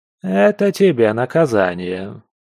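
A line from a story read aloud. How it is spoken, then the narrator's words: Calm explanation. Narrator (Russian): спокойно стал объяснять невидимка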